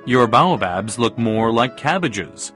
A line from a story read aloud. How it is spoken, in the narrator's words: The little prince laughed as he said